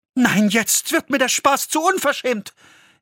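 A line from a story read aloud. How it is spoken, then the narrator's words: Called out. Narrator (German): rief Hanne ihrer Nachbarin zu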